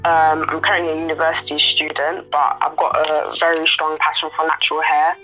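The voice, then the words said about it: British London accent. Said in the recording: “I'm based in the UK. If you can't tell from my accent, so I live in London.”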